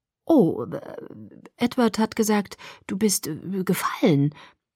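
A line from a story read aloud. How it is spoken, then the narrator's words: Stammering. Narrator (German): stammelte ich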